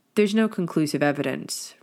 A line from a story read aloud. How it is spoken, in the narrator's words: Remus muttered quietly